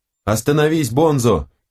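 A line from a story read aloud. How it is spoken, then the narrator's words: Shouting. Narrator (Russian): кричал Динг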